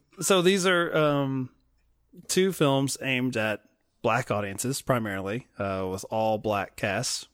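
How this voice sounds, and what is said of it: Slight Southern American accent. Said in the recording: “my you know slightly southern accent”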